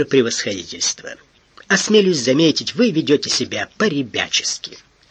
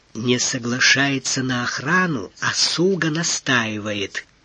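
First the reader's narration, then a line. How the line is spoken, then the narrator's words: Quiet. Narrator (Russian): тихо перевел Доронин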